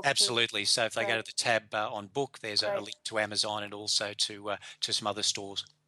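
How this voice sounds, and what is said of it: Polished radio voice. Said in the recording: “quite the radio voice”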